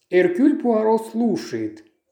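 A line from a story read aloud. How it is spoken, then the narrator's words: Pompous, showing off. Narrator (Russian): произнес он напыщенным тоном, дабы произвести впечатление на собеседника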